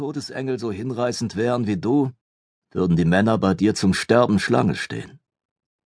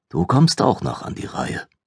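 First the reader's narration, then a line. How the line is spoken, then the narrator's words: Murmured. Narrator (German): murmelte sie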